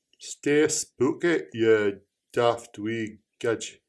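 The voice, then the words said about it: Put-on Scottish accent. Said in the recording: “I'll change my accent every time I say it. ... Scottish.”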